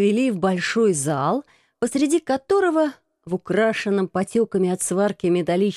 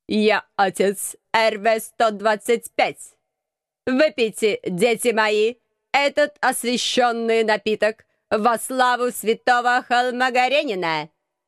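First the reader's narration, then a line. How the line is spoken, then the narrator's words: Metallic grating voice. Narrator (Russian): Металлическим голосом проскрежетал настоятель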